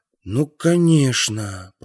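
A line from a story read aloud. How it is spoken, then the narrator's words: Mumbled. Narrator (Russian): пробормотал я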